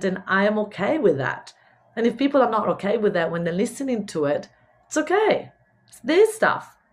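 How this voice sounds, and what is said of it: Mixed Italian-Spanish accent in English. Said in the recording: “my English wasn't correct ... I'm Italian. I lived in Spain. I've got this weird mixed accent ... I had broken English”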